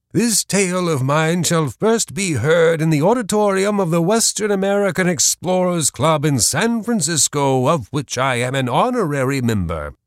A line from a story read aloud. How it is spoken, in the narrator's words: he exclaimed as loudly as his strength would permit